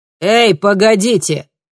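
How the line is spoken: Shouted. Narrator (Russian): крикнул он

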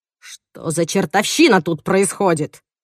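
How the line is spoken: Menacing question. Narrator (Russian): грозно спрашивает Тимоти

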